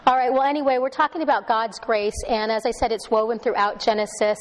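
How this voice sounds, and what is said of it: Slightly hoarse voice. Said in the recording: “I apologize for my throat. So I'm going to sound a little hoarse from time to time.”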